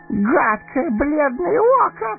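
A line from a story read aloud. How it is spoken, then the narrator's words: Shrieking. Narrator (Russian): взвизгнул он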